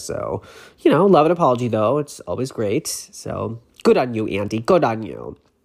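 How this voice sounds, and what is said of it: Slightly congested voice from a cold. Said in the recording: “I'm sorry if I sound a little bit under the weather. I have a little bit of a cold”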